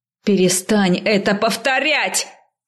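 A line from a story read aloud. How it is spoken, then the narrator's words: Shouting. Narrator (Russian): закричала я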